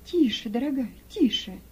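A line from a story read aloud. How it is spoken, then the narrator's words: Gentle hushing. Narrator (Russian): мягко остановила ее Рахиль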